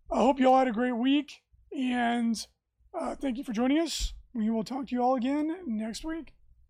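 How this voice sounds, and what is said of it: Strained, failing voice. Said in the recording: “my voice is rapidly failing me”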